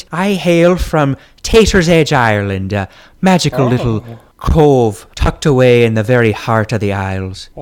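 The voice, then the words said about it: Put-on Irish accent. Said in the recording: “I'm detecting an accent. ... It's actually an Irish accent. ... Resemble a leprechaun.”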